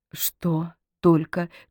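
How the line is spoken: Barely audible question. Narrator (Russian): чуть слышно спросила Полина

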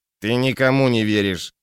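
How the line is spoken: Snorting. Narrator (Russian): хмыкнул Малмер

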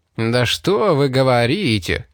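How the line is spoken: Drawling, mocking. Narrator (Russian): Растягивая гласные, насмешливо произнес Вилкокс

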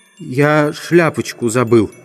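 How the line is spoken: Whispered. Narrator (Russian): шепнул буфетчик

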